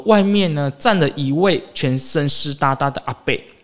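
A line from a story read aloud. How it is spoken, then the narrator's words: Stammering. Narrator (Chinese): 林女士结结巴巴说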